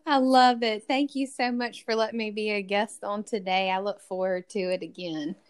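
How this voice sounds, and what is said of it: Southern American accent. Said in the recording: “your Southern accent. It's amazing. I love having Southern women on the show”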